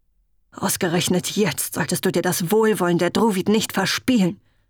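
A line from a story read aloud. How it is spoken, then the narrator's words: Hissing. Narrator (German): zischte sie ihm zu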